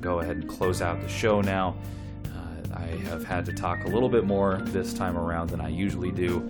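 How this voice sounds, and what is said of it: Slightly hoarse voice. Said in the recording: “my voice is a little hoarse. I've been under the weather this week”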